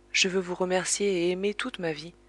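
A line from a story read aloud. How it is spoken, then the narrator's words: Plain. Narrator (French): répondit-elle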